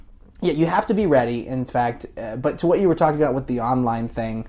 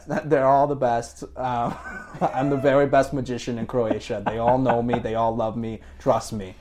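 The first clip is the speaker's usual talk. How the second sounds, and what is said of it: Poor Donald Trump impression. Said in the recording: “Trump impressions ... That was a terrible impression.”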